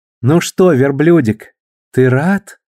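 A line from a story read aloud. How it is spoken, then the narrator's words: Tender question. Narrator (Russian): нежным голосом спросила Бетти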